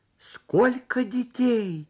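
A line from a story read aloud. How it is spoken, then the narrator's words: Exclamation. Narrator (Russian): воскликнул он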